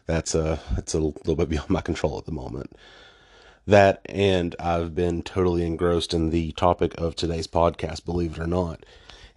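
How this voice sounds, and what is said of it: Voice sounds off from illness. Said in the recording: “I've actually been dealing with some personal illness here lately. I'm just now starting to get my voice back, so if I sound a little different and off”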